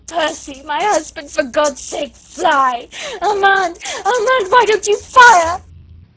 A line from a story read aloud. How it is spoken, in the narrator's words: moaning, not caring, but still half-sobbing, half-shrieking